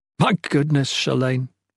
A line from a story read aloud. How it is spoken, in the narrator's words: he chuckled